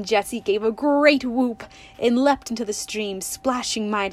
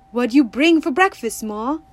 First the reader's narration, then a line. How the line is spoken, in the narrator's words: cried